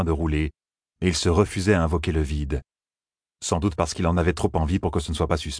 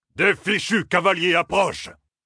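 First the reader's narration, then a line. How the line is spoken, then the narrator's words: Sudden shout. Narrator (French): cria soudain Uno, très opportunément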